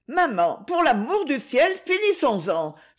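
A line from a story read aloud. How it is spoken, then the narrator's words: Exclaimed. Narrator (French): s'écria Monique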